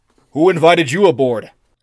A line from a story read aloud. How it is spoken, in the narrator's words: roared the intruder